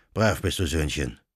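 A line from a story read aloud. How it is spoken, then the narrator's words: Canon murmuring. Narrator (German): murmelte der Kanonikus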